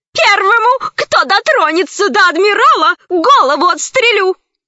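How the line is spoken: Shouted. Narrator (Russian): закричала

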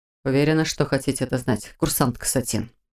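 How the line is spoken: Quiet clarifying. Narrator (Russian): тихо уточнил Мор

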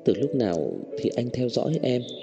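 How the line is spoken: Soft question. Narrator (Vietnamese): nhỏ giọng hỏi Cố Dư Sinh

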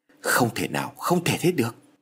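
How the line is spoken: Shocked stammer. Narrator (Vietnamese): ông Phát nổi ra gà lắp bắp

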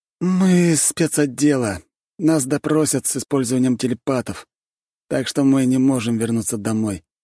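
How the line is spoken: Sighing. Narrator (Russian): вздохнул Гамма

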